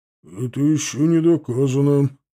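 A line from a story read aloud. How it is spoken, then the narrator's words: Grumbling. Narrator (Russian): пробурчал Титов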